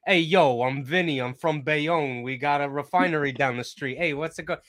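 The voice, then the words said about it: Put-on New Jersey Italian-American accent. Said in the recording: “they expect you to have an accent like you're from Bayonne ... Italians”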